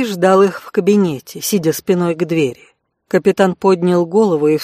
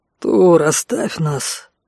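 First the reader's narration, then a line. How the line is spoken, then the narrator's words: Muffled, hollow. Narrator (Russian): глухо произнес он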